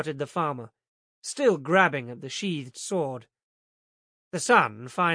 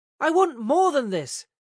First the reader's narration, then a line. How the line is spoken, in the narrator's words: shouted